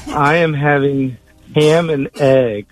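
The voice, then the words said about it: Attempted Pauly Shore Weasel impression. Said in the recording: “start talking in his voice ... as Pauly Shore ... That doesn't sound right.”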